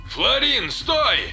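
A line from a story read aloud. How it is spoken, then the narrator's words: Bellowing loudly. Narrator (Russian): заорал Северин, не особо заботясь, слышат его или нет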